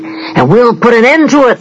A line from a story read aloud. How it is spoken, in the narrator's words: they bellowed